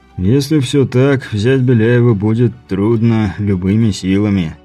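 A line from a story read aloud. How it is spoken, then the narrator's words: Sighing. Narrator (Russian): вздохнув, сказал Бибик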